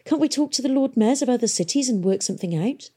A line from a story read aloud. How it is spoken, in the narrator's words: He laughed gently